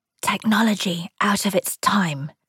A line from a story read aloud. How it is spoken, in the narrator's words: Aaron whispered to Joan